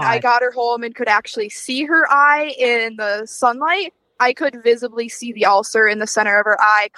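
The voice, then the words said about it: Mild Wisconsin accent. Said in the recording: “People in Wisconsin are so nice ... my little bit of my accent is coming out”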